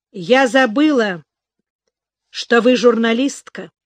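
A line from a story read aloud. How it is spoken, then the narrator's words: Angry remark. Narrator (Russian): зло обронила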